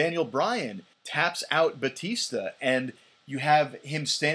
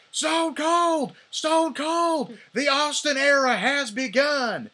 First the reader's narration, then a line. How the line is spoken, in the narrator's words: JR screaming